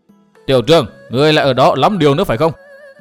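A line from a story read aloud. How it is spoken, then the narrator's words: Shout from inside. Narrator (Vietnamese): từ trong nội thất vọng ra một tiếng quát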